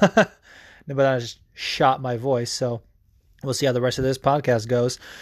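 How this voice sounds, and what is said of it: Usual voice. Nothing is said of it.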